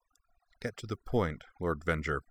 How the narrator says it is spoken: said, keeping her voice as cold as possible

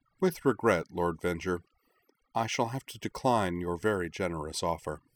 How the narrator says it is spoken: she said calmly

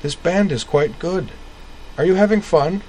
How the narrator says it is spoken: He grinned through his somber makeup at Caitlin, made his way close to her again, and cried

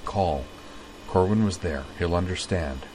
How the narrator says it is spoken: Utina murmured

